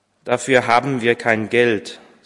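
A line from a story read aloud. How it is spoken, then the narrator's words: Young woman's bitter sigh. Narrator (German): seufzte die junge Frau bitter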